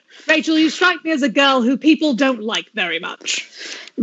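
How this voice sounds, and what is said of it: Put-on British accent. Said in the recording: “You do it in a British accent then.”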